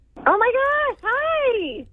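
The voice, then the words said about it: Excited, high-energy voice. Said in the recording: “You sound excited.”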